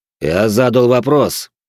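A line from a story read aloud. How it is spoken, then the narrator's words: Cold. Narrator (Russian): холодно произнёс я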